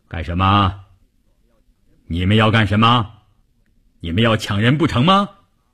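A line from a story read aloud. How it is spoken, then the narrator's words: Booming, thunderous voice. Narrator (Chinese): 一个大块头，一开口声音炸得人头皮都发麻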